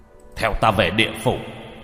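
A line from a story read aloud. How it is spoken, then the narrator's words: Commanding shout. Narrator (Vietnamese): Lục sử quát lên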